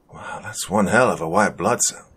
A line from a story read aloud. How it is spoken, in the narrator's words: Alan muttered